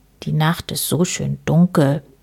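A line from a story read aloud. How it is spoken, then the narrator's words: Murmured. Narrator (German): murmelte Herr Schwarz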